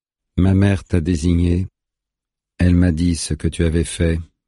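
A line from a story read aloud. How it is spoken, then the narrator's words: Calm reply. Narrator (French): répond le chasseur de lapins calmement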